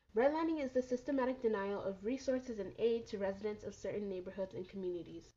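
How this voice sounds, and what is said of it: Nasal, congested voice. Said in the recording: “I'm a bit sick right now, which is why I sound like a bit nasally”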